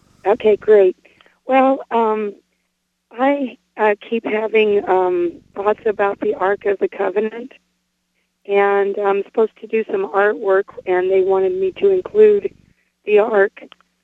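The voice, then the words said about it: Hoarse voice, laryngitis. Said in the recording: “I hope you can understand me. I have laryngitis.”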